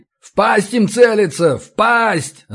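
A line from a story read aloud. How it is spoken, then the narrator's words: Echoing yell. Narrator (Russian): заорал я так, что эхо заметалось по залу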